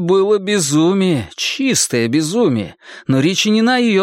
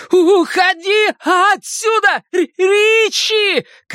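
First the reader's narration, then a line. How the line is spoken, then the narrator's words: Shouted. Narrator (Russian): крикнул Билл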